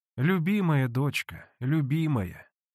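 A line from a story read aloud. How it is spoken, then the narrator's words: Sighing. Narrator (Russian): вздохнула Манефа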